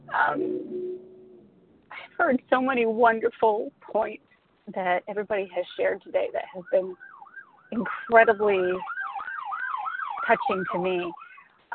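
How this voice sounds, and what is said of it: Emotional voice. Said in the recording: “I'm getting a little emotional.”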